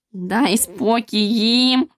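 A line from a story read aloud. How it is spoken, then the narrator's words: Breathless hoarse wheeze. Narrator (Ukrainian): Засапано прохрипів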